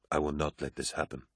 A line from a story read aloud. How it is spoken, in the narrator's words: Horus said quietly